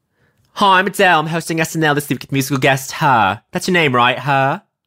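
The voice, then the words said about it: Cockney accent impression of a singer. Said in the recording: “I can't do Cockney that well. ... my impression of her ... that's how you do a responsible impression.”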